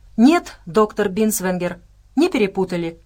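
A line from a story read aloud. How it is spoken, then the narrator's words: Giant laughing. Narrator (Russian): рассмеялся великан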